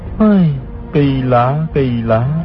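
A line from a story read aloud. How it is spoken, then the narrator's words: Sighing. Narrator (Vietnamese): Hư Trúc thở dài nói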